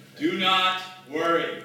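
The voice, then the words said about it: Loud godlike voice. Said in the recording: “in a very godlike voice, as you understand his voice to sound ... just loud”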